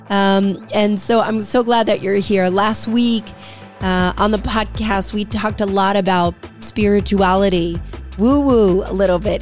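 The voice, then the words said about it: Altered, less mellifluous voice. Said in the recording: “my voice probably sounds a little bit different ... imagine that my voice is a little more mellifluous than it is now. Right now, I sound like JoJo Siwa”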